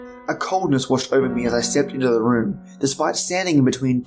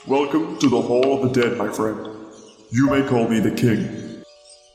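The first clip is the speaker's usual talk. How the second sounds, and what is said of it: Deep voice, slight accent. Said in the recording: “said a deep voice. ... With the slightest hint of an accent that I could not place”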